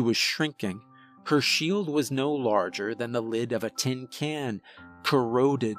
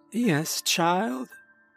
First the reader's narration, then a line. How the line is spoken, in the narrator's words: she croaked